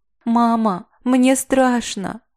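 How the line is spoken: Child sobbing. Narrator (Russian): Всхлипнул Витя

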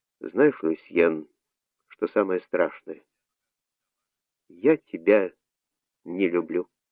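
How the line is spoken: Quiet. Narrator (Russian): тихо сказала

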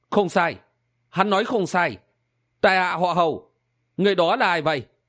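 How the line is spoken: Smiling. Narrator (Vietnamese): Chàng mỉm cười nói

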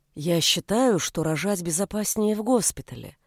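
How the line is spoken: Soft reply. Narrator (Russian): мягко ответил

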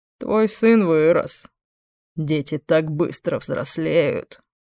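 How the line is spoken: Growling. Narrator (Russian): Она зарычала

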